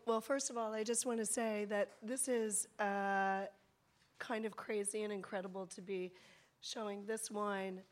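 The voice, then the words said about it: Weak, hoarse voice. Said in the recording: “Instead of saying I've lost my voice, I'm going to say that I'm getting my voice back.”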